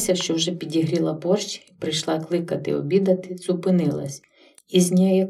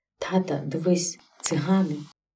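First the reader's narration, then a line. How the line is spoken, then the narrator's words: Faint whisper in ear. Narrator (Ukrainian): ледь шепнувши йому на вушко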